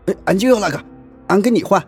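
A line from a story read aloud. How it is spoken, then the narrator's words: Excited eager shout. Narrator (Chinese): 爷爷眉飞色舞，急忙喊道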